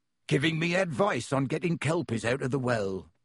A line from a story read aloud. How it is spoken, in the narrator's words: growled Hagrid